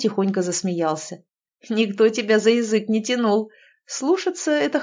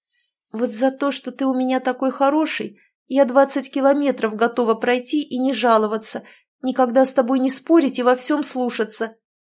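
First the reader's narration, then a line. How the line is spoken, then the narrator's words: Strained, reluctant. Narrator (Russian): все же выдавила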